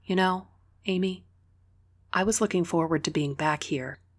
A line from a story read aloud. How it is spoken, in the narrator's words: Sophia said quietly, her voice low, sad